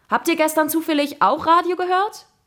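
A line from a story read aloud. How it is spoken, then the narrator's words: Called after them. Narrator (German): rief er uns hinterher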